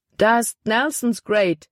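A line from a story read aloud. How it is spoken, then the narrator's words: Exclaimed. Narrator (German): rief er aus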